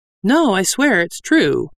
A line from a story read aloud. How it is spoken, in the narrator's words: Gerda said earnestly